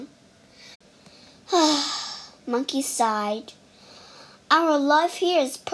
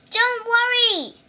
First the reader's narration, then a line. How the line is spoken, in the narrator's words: he cried